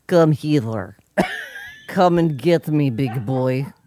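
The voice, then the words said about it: Put-on Russian accent. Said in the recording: “She's saying, come hither in a Russian accent.”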